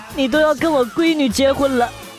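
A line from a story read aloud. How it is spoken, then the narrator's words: Choked up. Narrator (Chinese): 她哽咽了一下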